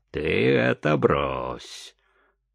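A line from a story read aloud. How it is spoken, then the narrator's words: Playful mock-stern. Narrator (Russian): шутливо нарочито грозно сказал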